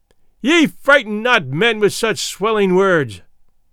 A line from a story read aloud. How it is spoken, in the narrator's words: he cried out